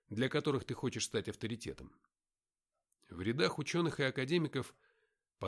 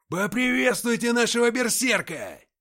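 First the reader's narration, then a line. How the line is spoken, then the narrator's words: Bandit leader bellowing over noise. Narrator (Russian): заорал во всю глотку предводитель бандитов, с легкостью перекричав гвалт пьянки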